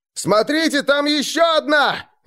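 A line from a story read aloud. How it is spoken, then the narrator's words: Shouting. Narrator (Russian): закричали охотники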